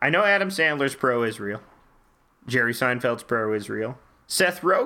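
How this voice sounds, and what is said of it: Usual voice. Nothing is said of it.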